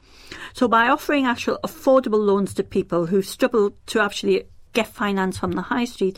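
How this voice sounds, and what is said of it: Northeast English accent. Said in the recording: “as you know by my accent, I'm from the northeast of England”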